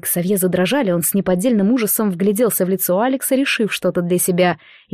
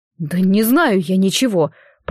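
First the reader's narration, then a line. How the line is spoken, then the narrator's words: Moaning. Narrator (Russian): простонал метродотель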